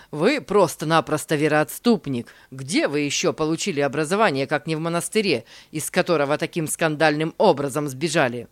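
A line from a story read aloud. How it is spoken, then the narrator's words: Shouted out. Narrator (Russian): Во время проповеди он выкрикнул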